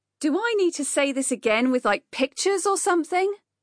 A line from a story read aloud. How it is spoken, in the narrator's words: Rupert shouted